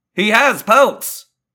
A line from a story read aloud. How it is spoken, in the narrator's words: yelled a little too loudly